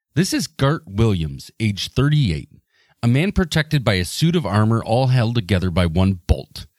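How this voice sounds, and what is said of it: Rod Serling impression. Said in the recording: “in my best Serling voice.”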